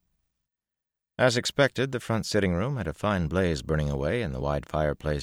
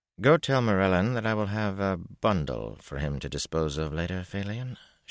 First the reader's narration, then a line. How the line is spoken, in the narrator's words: she said calmly